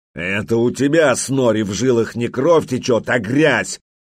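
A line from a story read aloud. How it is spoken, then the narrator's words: Angry growl. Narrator (Russian): гневно зарычал Олаф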